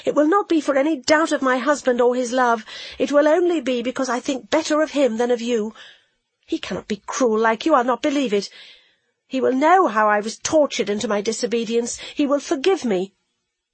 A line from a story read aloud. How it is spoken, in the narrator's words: said she hotly